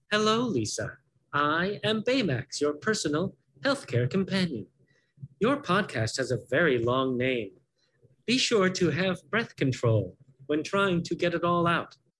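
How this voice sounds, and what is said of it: Performed cartoon character voice. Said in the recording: “will you do the voice? I do the voice.”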